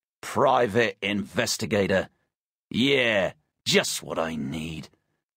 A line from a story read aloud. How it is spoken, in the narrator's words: he grumbled over his shoulder